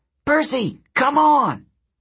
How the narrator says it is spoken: From the middle of the river, Hazel yelled

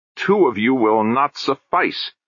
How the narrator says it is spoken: snarled the auditor in their heads

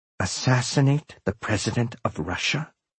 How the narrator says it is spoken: she whispered, as quietly as possible

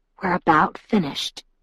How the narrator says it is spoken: he whispered

